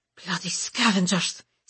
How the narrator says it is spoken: Sim hisses

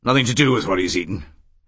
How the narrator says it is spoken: he said sharply

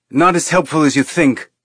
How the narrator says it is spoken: Naomi snapped

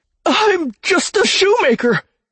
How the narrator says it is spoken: Beric whimpered

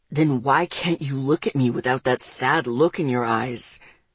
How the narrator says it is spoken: He asked gruffly

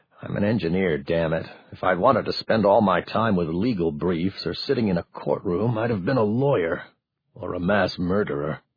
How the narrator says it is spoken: he muttered to himself

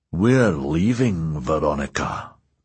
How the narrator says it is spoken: growled Ernie

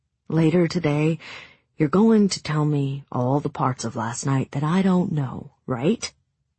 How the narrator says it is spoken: Hazel sighed

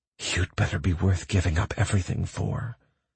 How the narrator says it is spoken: whispered in my ear

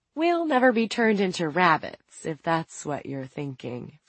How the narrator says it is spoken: Franny said

